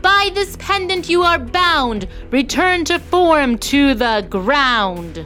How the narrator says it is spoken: shouted

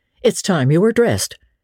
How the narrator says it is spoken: she said curtly

